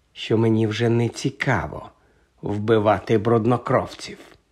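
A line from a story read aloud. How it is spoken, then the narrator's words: Calm remark. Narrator (Ukrainian): спокійно зауважив Редл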